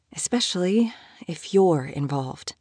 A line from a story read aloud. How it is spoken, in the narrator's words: she added quietly